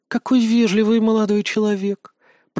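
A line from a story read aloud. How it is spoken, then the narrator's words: Purring. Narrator (Russian): промурлыкала она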